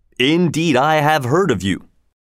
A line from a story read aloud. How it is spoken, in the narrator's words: King Richard said